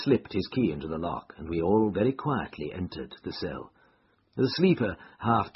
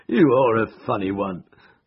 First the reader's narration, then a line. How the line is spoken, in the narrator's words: chuckled the inspector